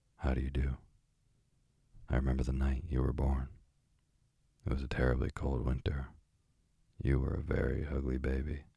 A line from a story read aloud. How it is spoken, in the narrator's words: The parrot said quite plainly in English